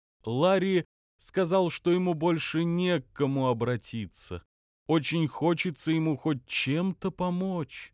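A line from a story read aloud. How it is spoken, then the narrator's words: Sad. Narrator (Russian): грустно отозвался Метки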